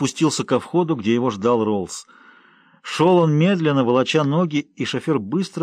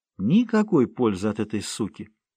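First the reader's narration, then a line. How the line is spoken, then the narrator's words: Old man speaking quietly. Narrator (Russian): негромко сказал старик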